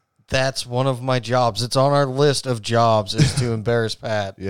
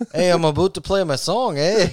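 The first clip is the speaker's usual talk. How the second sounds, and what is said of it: Put-on Canadian-sounding accent. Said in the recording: “that turned out a little more Canadian than I wanted, but it's close.”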